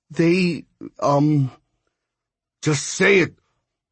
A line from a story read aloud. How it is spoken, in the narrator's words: Hondo spat